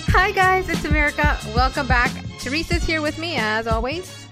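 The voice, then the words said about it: Radio announcer voice. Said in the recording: “Is that your podcast voice? ... Yes, it is. It's my radio announcer voice.”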